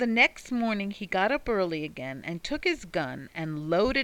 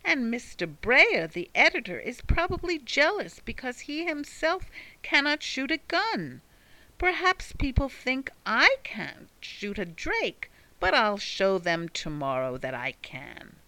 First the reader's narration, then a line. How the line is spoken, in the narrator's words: exclaimed the little man, much provoked